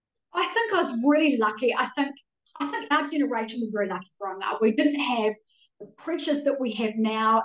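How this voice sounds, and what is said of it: New Zealand accent. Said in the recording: “you have a Kiwi accent”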